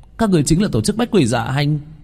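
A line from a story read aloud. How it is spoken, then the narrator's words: Group exclaiming. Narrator (Vietnamese): bọn họ đã kêu lên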